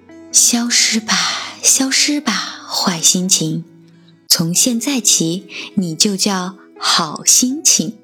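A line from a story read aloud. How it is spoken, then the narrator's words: Murmured incantation. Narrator (Chinese): 魔法师嘴里喃喃地念着咒语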